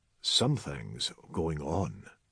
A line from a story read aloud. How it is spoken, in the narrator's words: said McCall quietly